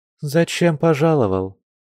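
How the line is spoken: Calm question. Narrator (Russian): спокойно спросила Мария

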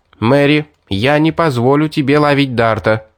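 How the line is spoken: Plain. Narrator (Russian): сказала она девушке

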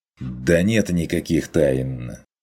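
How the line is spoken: Irritated dismissive hunter. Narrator (Russian): Раздраженно отмахнулся охотник

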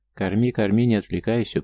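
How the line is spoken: Stern rebuke. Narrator (Russian): приструнил я ее

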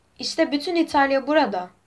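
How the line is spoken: Shouted. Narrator (Turkish): diye bağırdı

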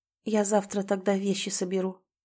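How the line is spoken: Mother's quiet ragged breath. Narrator (Russian): тихо и рвано выдыхает мама

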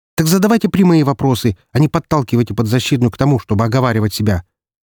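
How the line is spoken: Sharp, curt. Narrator (Russian): резко бросила Марина

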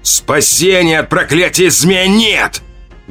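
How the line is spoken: Roaring, echoing. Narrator (Russian): Взревел он, и его крик эхом отразился от стволов вековых деревьев

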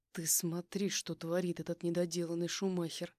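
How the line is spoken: Nervous words through teeth. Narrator (Russian): Процедил он сквозь зубы, нервно

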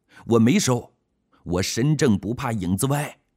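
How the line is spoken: Loud protest of innocence. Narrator (Chinese): 侯亮平大喊着冤枉

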